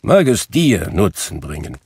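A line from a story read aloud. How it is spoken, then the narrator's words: Grumbling. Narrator (German): brummte Scrooge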